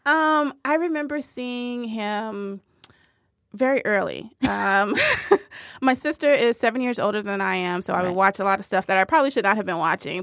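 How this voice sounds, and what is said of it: Strong Southern American accent. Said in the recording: “You sound so southern right now. ... Your home accent has come forth.”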